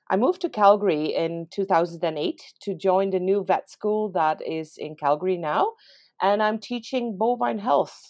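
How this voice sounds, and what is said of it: Dutch accent in English. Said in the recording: “sorry for the accent that comes through in the podcast because I'm born and raised and trained in the Netherlands”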